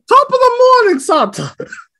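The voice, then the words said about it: Put-on Irish accent. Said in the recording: “Is that like Irish Santa? ... My Irish is coming in.”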